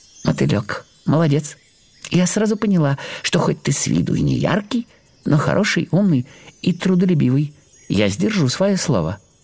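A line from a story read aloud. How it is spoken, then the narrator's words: Cheerful. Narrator (Russian): бабочка-белянка весело сказала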